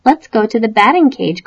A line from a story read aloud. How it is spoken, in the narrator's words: cried Froggy